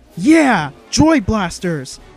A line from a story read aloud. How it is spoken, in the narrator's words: he shouted gleefully